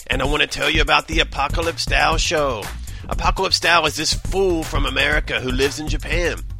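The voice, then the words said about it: Bad imitation of another person's voice. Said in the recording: “doing a bad impression of Mr. T.”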